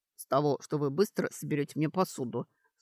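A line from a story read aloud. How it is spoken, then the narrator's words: Snorting command. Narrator (Russian): снова хмыкнул Доран и велел девушке-эльфу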